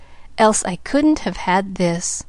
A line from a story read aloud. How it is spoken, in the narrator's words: she murmured